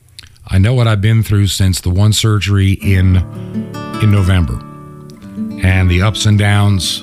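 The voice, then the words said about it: Weak, slightly worn-out voice. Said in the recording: “you can probably tell it in my voice from time to time that I'm just not 100% there”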